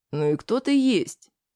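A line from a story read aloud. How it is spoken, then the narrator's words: Quiet. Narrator (Russian): сказал я негромко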